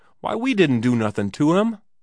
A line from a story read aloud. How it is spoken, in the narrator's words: Johnny and the cowboy cried together